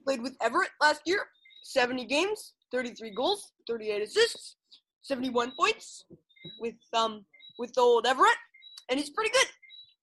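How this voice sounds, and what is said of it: Imitates another person's voice. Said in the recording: “I'm going to speak like Mike Babcock ... my Mike Babcock impression”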